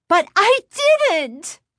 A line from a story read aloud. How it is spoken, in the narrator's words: Chris shrieked